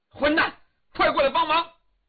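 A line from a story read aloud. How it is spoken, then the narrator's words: Loud shout. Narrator (Chinese): 李元芳 冲狄景辉大叫一声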